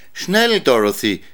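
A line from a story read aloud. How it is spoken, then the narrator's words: Called out. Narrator (German): rief sie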